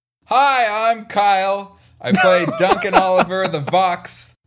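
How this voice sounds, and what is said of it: Put-on broadcast voice. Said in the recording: “This is my new broadcast voice.”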